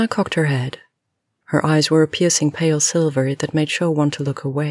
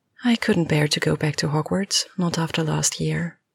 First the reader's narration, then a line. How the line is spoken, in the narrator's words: replied Luna quietly